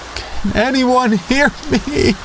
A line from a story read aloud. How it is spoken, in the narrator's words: I screamed